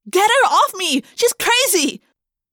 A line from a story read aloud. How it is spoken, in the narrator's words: Jessica cried